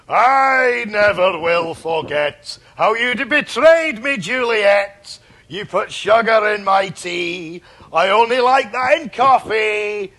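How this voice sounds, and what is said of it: Put-on Scottish accent, singing. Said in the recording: “I'm going to do it in a Scotch accent”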